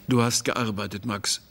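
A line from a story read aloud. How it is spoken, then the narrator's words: Calm. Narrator (German): sagte der Polizeiposten ruhig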